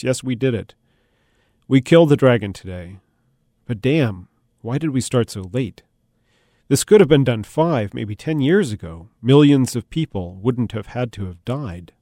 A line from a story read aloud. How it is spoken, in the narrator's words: the king answered in a broken voice